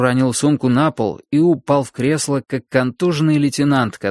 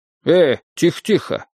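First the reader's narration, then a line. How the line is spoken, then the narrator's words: Exclaiming. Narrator (Russian): воскликнул он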